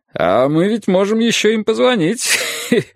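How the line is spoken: Guffawing. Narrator (Russian): сказал Юрий, захохотав

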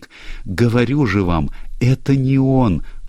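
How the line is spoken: Sobbing. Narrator (Russian): всхлипывала Люсия

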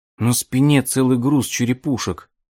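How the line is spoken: Exclaimed. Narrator (Russian): воскликнул Ральф

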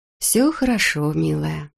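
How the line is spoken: Purring. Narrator (Russian): промурлыкала Тоби

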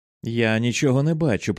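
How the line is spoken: Groaned. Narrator (Ukrainian): простогнав він

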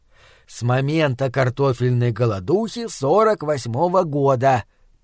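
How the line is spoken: Hissing. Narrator (Russian): прошипел Фланаган

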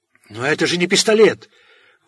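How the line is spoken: Terrified wail. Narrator (Russian): в ужасе завопил он

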